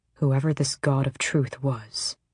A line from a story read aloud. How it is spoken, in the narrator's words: Rowan murmured, as if trying not to be overheard by the dead